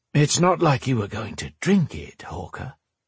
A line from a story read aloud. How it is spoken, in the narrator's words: she told him in a playful tone